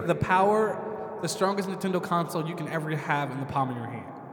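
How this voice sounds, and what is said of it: Salesy TV-commercial delivery. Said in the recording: “You sound like a Best Buy commercial.”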